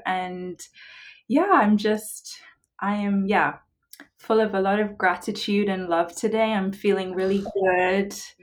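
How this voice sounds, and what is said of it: London English accent. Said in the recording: “originally from London?... I can hear it in your voice. It's so beautiful.”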